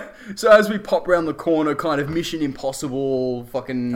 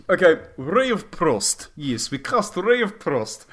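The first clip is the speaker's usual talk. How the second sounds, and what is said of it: Speaks in a put-on accent. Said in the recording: “I'm sorry, that's the wrong accent.”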